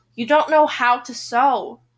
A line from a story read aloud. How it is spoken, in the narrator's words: Kate sighs